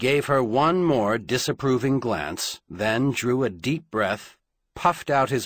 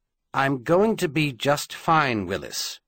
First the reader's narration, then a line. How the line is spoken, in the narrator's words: she said firmly